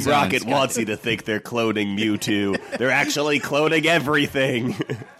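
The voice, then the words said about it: Bad impression of Dale's voice. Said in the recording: “worst Dale impression”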